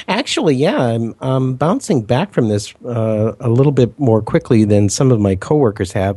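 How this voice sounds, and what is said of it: Slightly congested, stuffy voice. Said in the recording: “I still feel a little congested. I'm not sure you can hear that in my voice”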